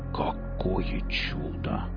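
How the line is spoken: Awed whisper. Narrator (Russian): прошептал Велес, глядя на это удивительное действо

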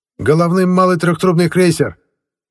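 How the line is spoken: Shout. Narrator (Russian): крикнул сигнальщик

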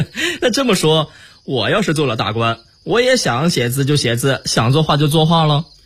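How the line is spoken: Cheerful laughing. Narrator (Chinese): 大顺乐了，笑着说

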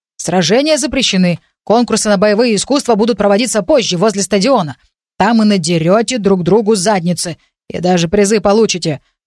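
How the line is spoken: Deep bass monster voice. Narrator (Russian): пробасил зеленый ушастый монстр

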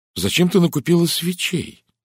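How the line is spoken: Exclaimed. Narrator (Russian): воскликнула Кристина

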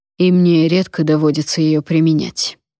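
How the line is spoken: Steely voice. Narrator (Russian): стальным голосом сказал Вонвальд

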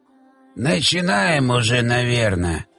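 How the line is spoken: Creaky old man's voice. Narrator (Russian): проскрипел старик-вождь

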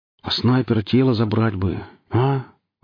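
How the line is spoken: Sighing. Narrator (Russian): вздохнул Плакса

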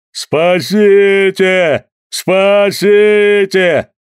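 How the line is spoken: Bellowing like a bull. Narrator (Russian): он заревел бычьим голосом

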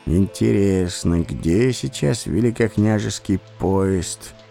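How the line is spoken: Sigh. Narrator (Russian): вздохнул я

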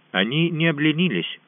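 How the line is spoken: Even voice. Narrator (Russian): ровным голосом ответил Коттай

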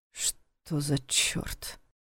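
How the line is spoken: Muttering. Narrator (Russian): пробормотал он

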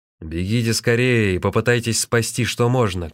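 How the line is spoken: Shouted. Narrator (Russian): крикнул

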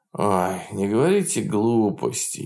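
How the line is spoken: Sleepy objection. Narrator (Russian): сонно возражал Смелов

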